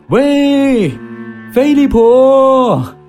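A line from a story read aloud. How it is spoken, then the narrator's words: Shouting. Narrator (Chinese): 喊着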